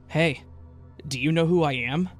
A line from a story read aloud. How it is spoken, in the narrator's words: In a strangely eager tone, he said